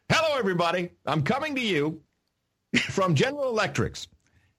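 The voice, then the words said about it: Poor George W. Obama impression. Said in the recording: “how is your George W. Obama impersonation coming along? ... it's very poor so far ... when you do, hello, everybody, that is exactly George W. Obama”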